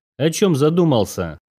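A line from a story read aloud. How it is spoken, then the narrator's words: Gloating giggle. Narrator (Russian): Полина, вредина такая, злорадно хихикнула и извительно выдала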